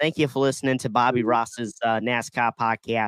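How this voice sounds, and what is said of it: Usual voice. Nothing is said of it.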